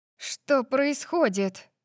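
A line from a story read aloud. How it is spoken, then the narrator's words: Breathless exhale. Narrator (Russian): выдохнула, когда мое сердце бешено заколотилось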